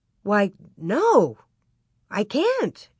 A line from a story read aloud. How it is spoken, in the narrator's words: exclaimed